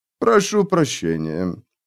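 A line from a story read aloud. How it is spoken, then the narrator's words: Clear, cultured voice. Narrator (Russian): повторил он чистым, интеллигентным голосом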